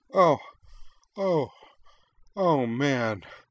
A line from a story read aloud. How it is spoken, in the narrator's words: Korra gasped